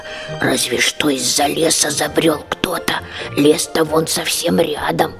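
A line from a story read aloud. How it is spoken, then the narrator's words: Snort then quiet reply. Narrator (Russian): хмыкнул дракоша, а потом сам же себе ответил тихонько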